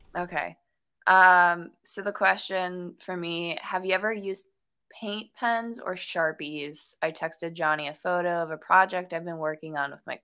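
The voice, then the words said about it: Midwestern American accent. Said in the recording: “My Midwestern accent is coming out.”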